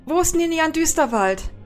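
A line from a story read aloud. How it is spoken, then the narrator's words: Called out. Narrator (German): Sie rennt auf den erstbesten Silvari zu und ruft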